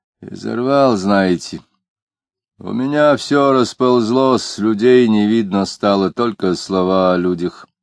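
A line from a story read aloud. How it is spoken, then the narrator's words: Muffled, hollow voice. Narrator (Russian): глухо говорил Иноков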